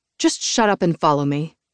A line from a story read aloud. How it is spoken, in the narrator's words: I snapped